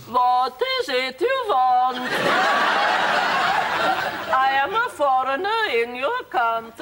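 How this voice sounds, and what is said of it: Put-on generic foreign accent. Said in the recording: “what accent do you think that is? ... Bulgarian? Standard foreigner.”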